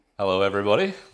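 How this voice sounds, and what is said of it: Deep chesty presenter voice. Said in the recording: “is that your podcast voice? ... It's my presenting voice. ... I have quite a chesty voice. So I'm hoping the baritones will come through”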